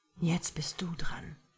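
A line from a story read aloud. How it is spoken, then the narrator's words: Aroused low murmur. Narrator (German): raunte er, sichtlich erregt durch ihre Berührungen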